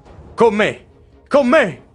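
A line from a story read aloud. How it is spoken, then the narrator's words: Shouting to his men. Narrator (Italian): grida rivolto ai suoi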